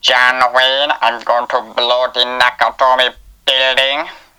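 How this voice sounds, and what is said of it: Alan Rickman impression. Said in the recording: “do a really good impression of Alan Rickman in it. ... It might be a good impression, ... Or it might not be.”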